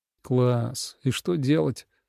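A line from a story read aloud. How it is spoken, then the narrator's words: Quiet, disbelieving, to himself. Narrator (Russian): негромко спросил он себя, все еще не веря своим глазам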